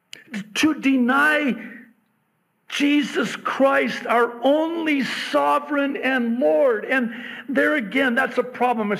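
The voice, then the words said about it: Loud yelling preaching voice. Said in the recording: “Sorry, I'm yelling.”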